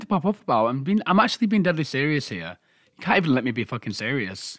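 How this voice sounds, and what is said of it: Usual voice. Nothing is said of it.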